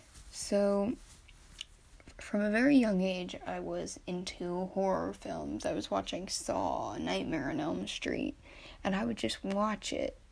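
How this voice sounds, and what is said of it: Nervous voice. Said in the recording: “I'm a bit nervous if you can't hear it in my voice”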